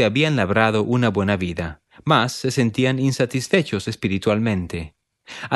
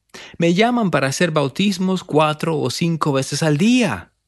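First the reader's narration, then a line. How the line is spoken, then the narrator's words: Exclaimed. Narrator (Spanish): exclamó él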